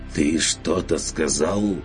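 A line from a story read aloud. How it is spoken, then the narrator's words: Fierce hoarse voice. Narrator (Russian): Вытолкнул майстер Мельхиор ожесточенно и сипло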